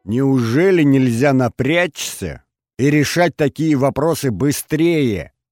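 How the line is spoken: Angry yelling. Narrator (Russian): орала Алена Андреевна Смирнова

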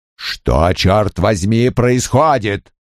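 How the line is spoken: Barked. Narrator (Russian): рявкнул Крэмер

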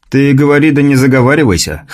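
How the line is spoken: Hmphing. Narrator (Russian): хмыкнул Михаил

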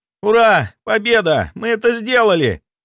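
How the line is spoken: Joyful shout. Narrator (Russian): радостно выкрикнул Влад

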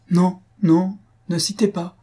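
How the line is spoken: Cheerful interruption. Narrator (French): interrompit gaiement Faustine

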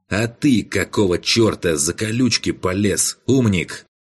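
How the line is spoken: Angry. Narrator (Russian): зло произнес маг

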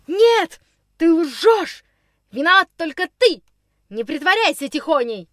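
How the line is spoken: Frenzied shouting. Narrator (Russian): Неистово кричал Никс

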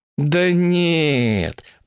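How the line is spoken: Drawn out, self-reproaching. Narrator (Russian): протянула блондинка, проклиная себя за упоминание о Красной книге

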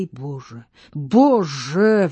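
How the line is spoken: Woman exclaiming. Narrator (Russian): воскликнула княгиня

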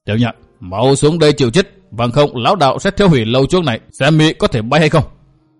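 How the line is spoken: Furious growl. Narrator (Vietnamese): Kiếm Hùng râu tóc dựng ngược đứng dưới lầu, dùng kiếm chỉ lên gầm gừ nói

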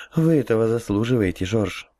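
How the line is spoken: Sighing female. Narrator (Russian): вздохнула Алиса

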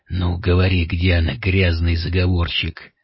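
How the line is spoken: Hoarse rasp. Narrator (Russian): прохрипел граф

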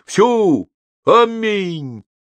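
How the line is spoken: Thunderous booming voice. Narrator (Russian): прогремел не слабее протодиакона в Коломенском Успенском соборе

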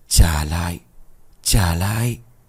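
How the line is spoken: Whispers growing louder. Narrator (Vietnamese): những lời thì thầm của ông Toàn càng lúc càng lớn

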